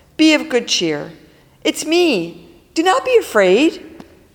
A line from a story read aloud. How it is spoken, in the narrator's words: Cheerfully, Jesus says